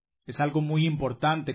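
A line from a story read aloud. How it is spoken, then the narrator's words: Plain reply. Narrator (Spanish): contestó Grasoso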